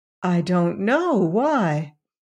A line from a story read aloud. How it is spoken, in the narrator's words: Valency, with Uncle Benjamin's will in the background of her mind, said meekly